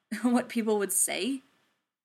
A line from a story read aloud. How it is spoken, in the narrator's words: Steve sighed